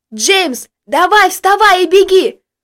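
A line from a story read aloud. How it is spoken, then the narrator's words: Yelling. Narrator (Russian): Было слышно лишь, как он орал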